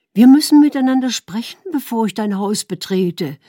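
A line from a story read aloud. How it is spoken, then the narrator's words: Calling after him. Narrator (German): rief ihm nach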